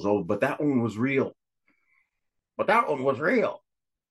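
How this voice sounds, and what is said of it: Imitates another person's voice. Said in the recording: “my Jim Fetzer impersonation.”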